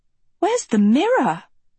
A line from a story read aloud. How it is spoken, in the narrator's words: she gasped